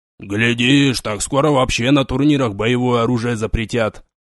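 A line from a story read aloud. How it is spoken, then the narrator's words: Grumbling. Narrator (Russian): ворчал он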